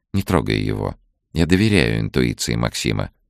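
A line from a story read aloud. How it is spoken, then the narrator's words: Calm. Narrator (Russian): спокойно сказала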